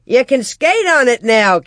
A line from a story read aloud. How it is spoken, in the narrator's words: Cap shouted back